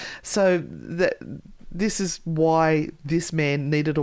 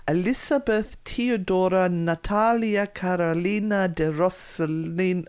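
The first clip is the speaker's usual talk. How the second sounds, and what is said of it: Put-on Italian-sounding pronunciation. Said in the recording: “I'm sounding Italian.”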